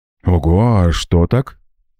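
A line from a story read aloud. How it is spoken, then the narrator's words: Confused, smiling. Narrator (Russian): растерянно улыбнулся Макс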